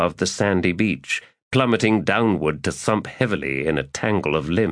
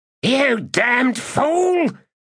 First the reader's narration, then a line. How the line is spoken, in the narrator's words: she snarled